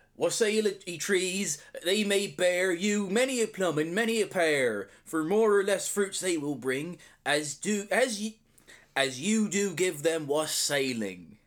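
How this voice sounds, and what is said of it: Put-on Somerset accent. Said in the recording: “recite this with your best Somerset accent”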